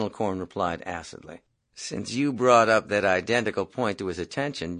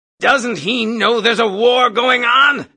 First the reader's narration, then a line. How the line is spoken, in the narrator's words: Colonel Cathcart yelled out suddenly